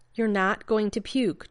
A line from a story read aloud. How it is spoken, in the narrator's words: Jeannie said firmly